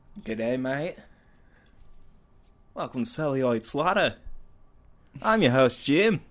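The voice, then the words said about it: Put-on Australian accent. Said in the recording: “if we were Australian. That'd be badass. We'd have the coolest voices ... can you keep that accent up? ... It sounds perfect.”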